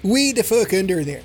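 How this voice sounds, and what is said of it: Misplaced put-on accent, maybe Welsh. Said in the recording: “That was the wrong accent entirely. ... Wrong accent. I reached into the accent drawer and pulled the wrong one out. ... Was that Welsh?”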